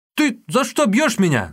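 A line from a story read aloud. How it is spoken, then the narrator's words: Yelling. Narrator (Russian): завопил Юньге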